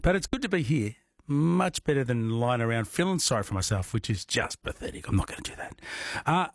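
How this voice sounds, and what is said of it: Sick, unwell-sounding voice. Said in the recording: “I was a big crook. As you can tell by my voice, not sounding that great.”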